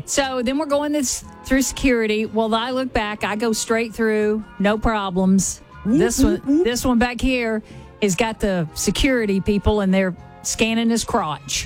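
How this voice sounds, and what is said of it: Southern American accent. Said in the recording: “my normal southern accent”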